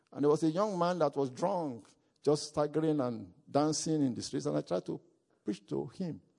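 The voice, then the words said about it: Heavy non-native English accent. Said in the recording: “Maybe I was not speaking clear English because of my deep accent.”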